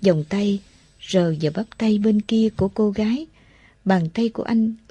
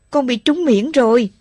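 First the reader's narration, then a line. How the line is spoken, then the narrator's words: Sudden cry. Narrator (Vietnamese): Một quả đạn nổ gần, cô gái bên cạnh Phát bỗng kêu lên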